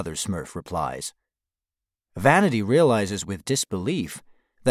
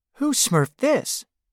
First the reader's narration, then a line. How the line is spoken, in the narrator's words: Vanity exclaims